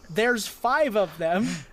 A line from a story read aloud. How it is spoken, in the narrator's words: yell